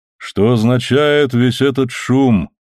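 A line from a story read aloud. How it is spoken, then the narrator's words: Low-voiced question. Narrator (Russian): спросил он низким голосом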